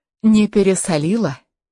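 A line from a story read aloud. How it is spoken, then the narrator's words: Plain. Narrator (Russian): спросила Анна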